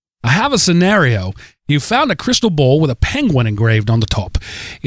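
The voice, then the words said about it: Deliberately bad Australian accent. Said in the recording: “you might want to read this in a terrible Australian accent ... my terrible Australian accent ... My terrible Australian. I can do a good one, but that was the terrible”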